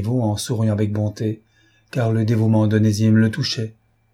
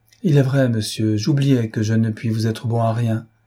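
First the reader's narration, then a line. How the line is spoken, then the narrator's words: Melancholy resigned sigh. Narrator (French): répondit le pauvre myope avec un soupir de résignation mélancolique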